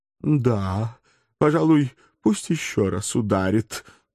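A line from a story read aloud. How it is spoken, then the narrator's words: Elf pleading. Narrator (Russian): также взмолился эльф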